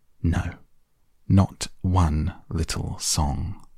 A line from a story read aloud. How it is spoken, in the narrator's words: replied the rat firmly